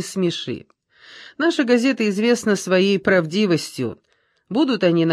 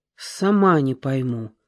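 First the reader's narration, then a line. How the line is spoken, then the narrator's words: Sigh. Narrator (Russian): вздохнула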